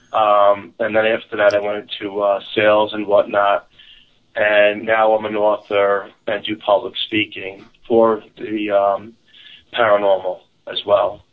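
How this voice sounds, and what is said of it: New York, Staten Island accent. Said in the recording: “your New York accent ... you sound very Staten Island”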